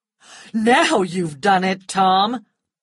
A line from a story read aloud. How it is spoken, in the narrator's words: cried Rhett